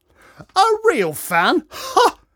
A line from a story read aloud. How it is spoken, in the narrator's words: laughed Dad